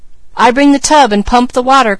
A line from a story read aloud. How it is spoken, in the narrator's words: cried Mary